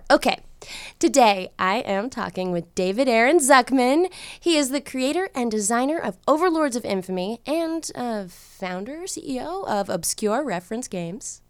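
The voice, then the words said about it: Stuffy, congested voice. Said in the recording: “Getting over a cold. Sorry my voice may sound stuffy”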